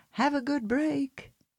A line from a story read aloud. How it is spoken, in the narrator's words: the cries of